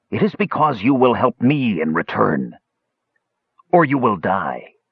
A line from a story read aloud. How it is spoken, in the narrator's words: said harshly